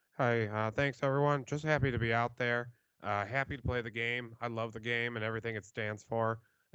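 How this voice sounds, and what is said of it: Imitates a generic backup quarterback. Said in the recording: “my backup QB impersonation”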